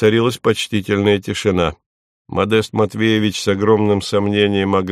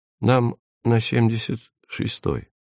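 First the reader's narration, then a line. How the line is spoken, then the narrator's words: Quiet. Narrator (Russian): негромко сказал Эдик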